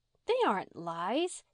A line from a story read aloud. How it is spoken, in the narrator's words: said Di indignantly